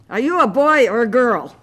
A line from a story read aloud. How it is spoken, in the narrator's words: One of the boys yelled at me